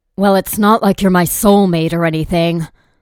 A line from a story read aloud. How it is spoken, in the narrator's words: he said something romantic, to which I snapped back